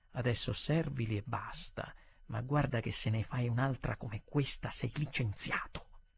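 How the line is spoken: Low-voiced warning. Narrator (Italian): il direttore mi disse a bassa voce

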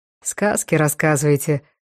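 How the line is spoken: Sighed. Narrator (Russian): вздохнул Евдокимов

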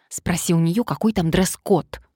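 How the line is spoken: Hissed into ear. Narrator (Russian): прошипела на ухо подруге Мария

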